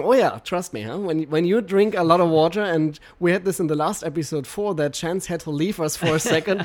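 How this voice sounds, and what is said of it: Foreign-accented English. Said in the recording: “sweet accent of H2O guru Martin Riese... I cannot fake my accent... This is really my accent”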